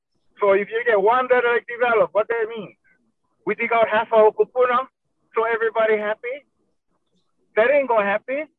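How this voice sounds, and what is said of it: Emotional, strained voice. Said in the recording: “Sorry for getting all emotional”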